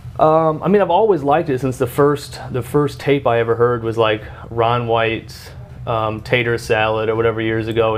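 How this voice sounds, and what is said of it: Country twang accent. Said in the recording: “You do have a country twang.”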